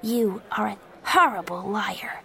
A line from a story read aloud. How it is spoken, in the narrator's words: Joey said quietly